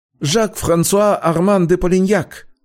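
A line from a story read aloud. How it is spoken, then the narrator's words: Hurried, strongly nasal voice. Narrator (Russian): торопливо представился Жак, сильно гнусавя, потому что по-прежнему зажимал нос пальцами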